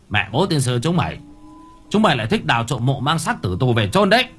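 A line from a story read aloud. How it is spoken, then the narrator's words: Angry near-shout. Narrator (Vietnamese): Người quản trang tay cầm gậy cao su, tay cầm đèn pin chiếu tới, miệng nói như quát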